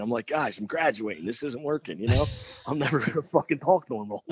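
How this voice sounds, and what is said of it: Thick Irish-tinged Philadelphia accent. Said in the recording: “you've got the Irish tinge to everything that you do, and then on top of that, you're from Philly, where the accent is definitely you know, noticeable ... It's thick. It's thick. You lay it on pretty thick.”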